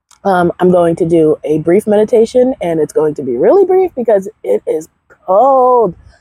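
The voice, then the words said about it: Voice sounds unwell, not usual. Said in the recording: “I'm also feeling a little under the weather... My voice is not what it usually is.”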